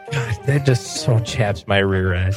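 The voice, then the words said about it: Creepy voice. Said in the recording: “a creepy voice across the card table from me”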